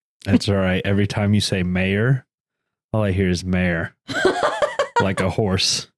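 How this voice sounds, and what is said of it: Southern American accent. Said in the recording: “that's just my Southern accent”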